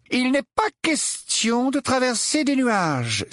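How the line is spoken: Angry exclamation. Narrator (French): s'exclama Tonk avec colère

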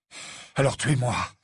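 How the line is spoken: Breathless, panting. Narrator (French): dit Harry, la voix haletante

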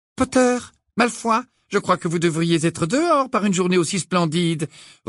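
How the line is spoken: Brisk tone. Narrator (French): reprit le professeur McGonagall d'un ton vif

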